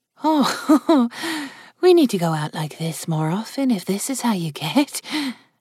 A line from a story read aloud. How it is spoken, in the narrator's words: Chloe said with a laugh